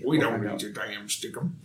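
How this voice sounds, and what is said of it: Imitates a Texan voice. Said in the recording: “his best Jerry Jones impression ... Or Ezekiel Elliott, maybe ... Anyone in Texas ... That's my impression”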